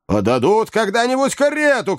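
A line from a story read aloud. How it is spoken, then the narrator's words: Shouting. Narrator (Russian): кричал Ордль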